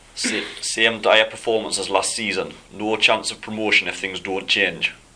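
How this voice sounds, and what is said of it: Put-on Geordie accent, fairly good. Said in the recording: “Can you do the Geordie accent? ... You do it in the style of Julio Geordie. ... That was pretty good, actually.”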